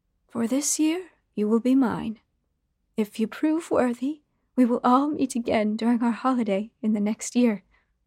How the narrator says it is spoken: she finally said

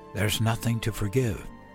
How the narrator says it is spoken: I whispered into her wispy gray hair, and I meant it

